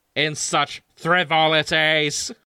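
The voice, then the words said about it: Dalek voice. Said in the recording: “How do I say that in a Dalek voice?”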